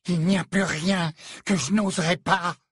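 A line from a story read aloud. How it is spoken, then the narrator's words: Breathless, slightly hysterical. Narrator (French): répliqua Narcissa dans un souffle, une pointe d'hystérie dans la voix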